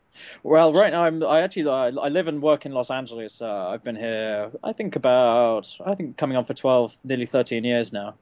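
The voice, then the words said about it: English accent. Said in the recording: “as you can probably tell from the accent, I'm not an original... I was originally from the UK, from England”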